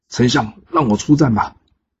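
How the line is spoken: Angry. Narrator (Chinese): 他愤怒的跟姜子牙说

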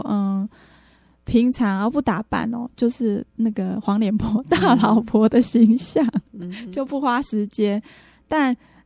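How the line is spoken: Joking. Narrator (Chinese): 我就开玩笑说

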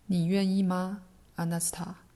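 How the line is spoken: Plain. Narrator (Chinese): 艾伦问他

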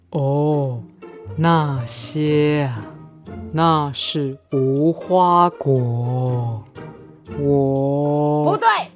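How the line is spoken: Slowly. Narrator (Chinese): 乌龟慢慢的说

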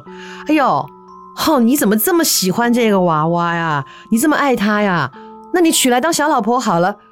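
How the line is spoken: Teasing, joking. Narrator (Chinese): 他太太……跟他开玩笑，就调侃他说

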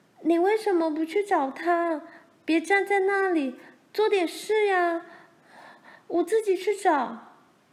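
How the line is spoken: Loud shout. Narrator (Chinese): 玲玲大声叫着

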